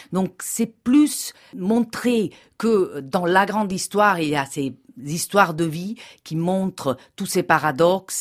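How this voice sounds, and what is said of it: Pleasant Italian accent in French. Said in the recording (French): “votre joli accent italien”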